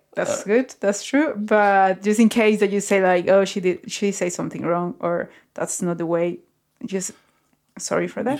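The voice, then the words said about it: Non-native English accent. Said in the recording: “English is not my first language. My English is not perfect. ... you can guess from my accent that English is not my first language”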